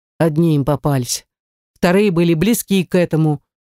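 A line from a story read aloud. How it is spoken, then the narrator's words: Sigh. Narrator (Russian): вздохнула я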